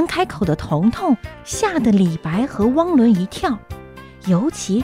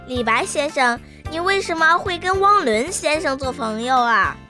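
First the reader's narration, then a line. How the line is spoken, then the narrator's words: Sudden loud question. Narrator (Chinese): 彤彤突然开口大声地问道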